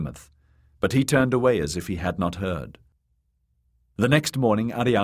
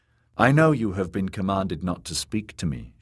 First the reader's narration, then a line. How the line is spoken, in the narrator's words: she said